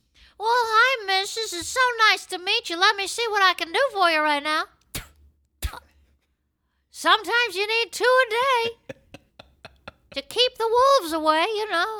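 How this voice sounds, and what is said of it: Imitates another person's voice. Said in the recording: “My Jules impression.”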